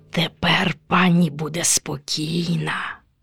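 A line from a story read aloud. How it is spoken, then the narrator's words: Witch muttering. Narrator (Ukrainian): Пробурмотіла відьма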